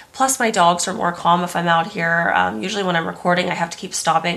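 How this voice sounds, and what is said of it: Sick, unwell-sounding voice. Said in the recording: “The real crime today is my voice. I am sick yet again... sorry about my voice”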